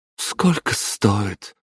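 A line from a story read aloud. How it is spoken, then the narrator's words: Weary question. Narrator (Russian): устало поинтересовалась мама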